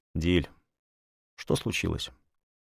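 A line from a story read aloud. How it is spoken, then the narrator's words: Sighing speech. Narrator (Russian): вздохнул и сказал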